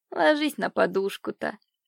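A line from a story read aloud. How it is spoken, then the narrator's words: Gentle command. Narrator (Russian): велела ласково няня девочки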